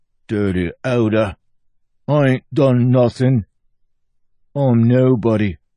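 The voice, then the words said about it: Mumbly old-fashioned accent. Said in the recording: “Good accent, that was. Real mumbly, a classic vintage, wrapped in a blanket of history.”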